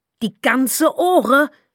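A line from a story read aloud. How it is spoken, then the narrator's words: Shouting. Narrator (German): schrie sie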